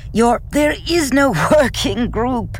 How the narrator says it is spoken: Aiden cried, half laughing

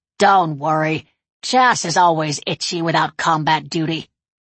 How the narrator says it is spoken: Satanique croaked

